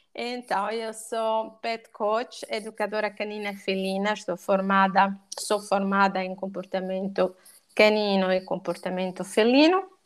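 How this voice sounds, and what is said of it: Portuguese with an Italian accent. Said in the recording (Portuguese): “ainda não consegui perder o meu sotaque italiano”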